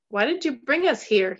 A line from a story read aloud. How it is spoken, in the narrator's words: He screamed it as loud as he could, his face crimson